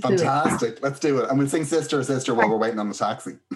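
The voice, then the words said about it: Irish accent. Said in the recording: “I love your accent. ... Just a bit of Irish there for you.”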